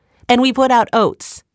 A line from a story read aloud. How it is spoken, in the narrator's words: said Alyssa